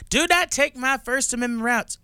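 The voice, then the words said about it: Noticeable regional accent. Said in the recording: “Why'd my accent come out?”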